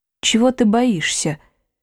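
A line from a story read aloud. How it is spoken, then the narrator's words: Quiet question. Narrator (Russian): негромко спросил проф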